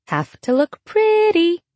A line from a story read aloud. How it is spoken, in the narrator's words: chirps